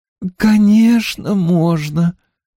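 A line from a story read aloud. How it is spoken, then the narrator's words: Loving coo. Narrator (Russian): любовно проворковала Джон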